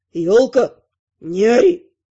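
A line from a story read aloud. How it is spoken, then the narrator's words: Growling. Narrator (Russian): рыкнул Эвин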